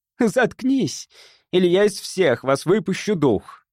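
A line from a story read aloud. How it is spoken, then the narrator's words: Shout. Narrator (Russian): крикнула Чен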